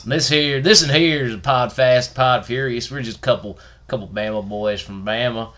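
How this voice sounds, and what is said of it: Put-on Alabama Southern accent. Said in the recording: “our Bama accent extravaganza”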